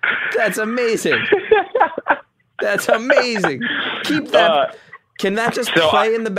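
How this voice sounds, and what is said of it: Usual voice. Nothing is said of it.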